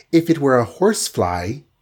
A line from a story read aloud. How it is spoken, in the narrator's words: she said in a tinkling voice